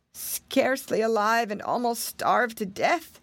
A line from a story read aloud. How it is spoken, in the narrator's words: answered Martin in a weak voice